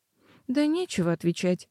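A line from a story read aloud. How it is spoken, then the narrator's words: Regretful sigh. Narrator (Russian): с сожалением вздохнула Лола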